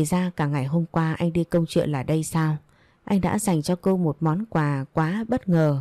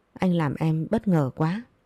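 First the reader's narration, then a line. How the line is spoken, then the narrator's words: Choked with gratitude. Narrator (Vietnamese): Ngước ánh mắt đầy biết ơn sang Quốc Tuấn, Hương Ly nghẹn ngào nói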